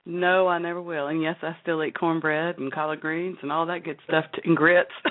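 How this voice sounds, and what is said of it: Southern American accent. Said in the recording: “you're from the South ... I hear an accent. It's like, whoa, that's nice. ... you haven't lost your southern roots”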